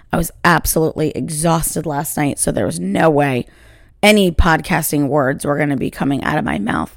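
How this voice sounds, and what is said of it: Tired, slightly worn voice. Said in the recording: “You can probably hear my voice is not 100%”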